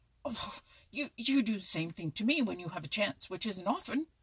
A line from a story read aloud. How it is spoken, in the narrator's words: sputtered Chatterer